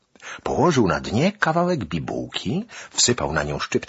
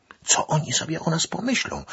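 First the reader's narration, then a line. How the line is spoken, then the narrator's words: Whispered. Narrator (Polish): szeptała do Szaliko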